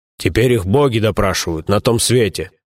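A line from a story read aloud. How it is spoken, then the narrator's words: Booming bass gnome. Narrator (Russian): прогудел басом гном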